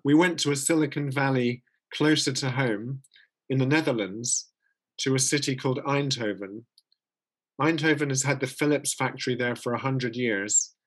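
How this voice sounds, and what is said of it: Speaker's own noticeable accent. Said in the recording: “You can hear my accent.”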